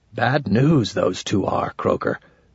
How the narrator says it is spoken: whispered in the no-breath whisper we use when we are creeping past enemy sentries

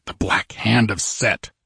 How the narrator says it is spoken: he muttered

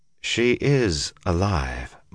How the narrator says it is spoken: Moraine said slowly

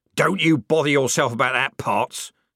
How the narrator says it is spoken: snapped the corporal

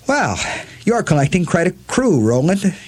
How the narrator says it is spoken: Eddie said, bitterly amused

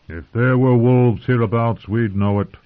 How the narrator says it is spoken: growled Lem

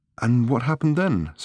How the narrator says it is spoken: said Fenchurch in the same breathless tone

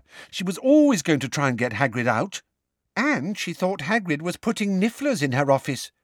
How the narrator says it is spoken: piped up Katie Bell

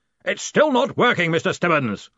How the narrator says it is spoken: he bellowed

